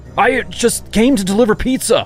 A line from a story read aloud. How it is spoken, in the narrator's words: cried in alarm